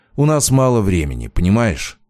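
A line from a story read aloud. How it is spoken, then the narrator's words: Tired. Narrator (Russian): устало проговорил он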